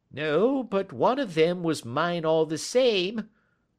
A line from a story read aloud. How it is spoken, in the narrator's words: whined the little man